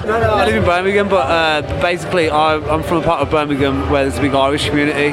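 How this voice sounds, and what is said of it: Brummie accent. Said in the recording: “Mancunian accent ... I think this is a Brummie accent. This is not a Mancunian accent.”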